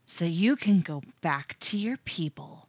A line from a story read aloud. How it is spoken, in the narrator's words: Anna hisses